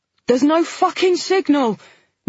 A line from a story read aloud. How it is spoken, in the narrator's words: Nina shouted back as she scrambled down the stairs